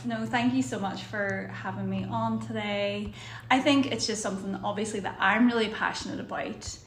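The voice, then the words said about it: Speaks with a noticeable accent. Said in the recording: “it just sounds so good when you say it ... say it again in your accent”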